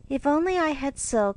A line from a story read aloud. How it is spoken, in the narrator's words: sighed Meg